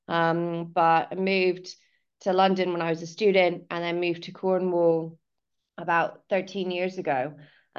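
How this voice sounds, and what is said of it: American accent softened by British years. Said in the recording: “you might be able to hear from my voice and it can confuse where our origins are, but I'm originally from California”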